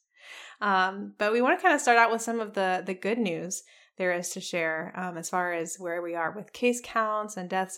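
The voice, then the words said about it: Sick, slightly altered voice. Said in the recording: “he brought a little something home to share with mommy. So if my voice is a little different today, I do apologize”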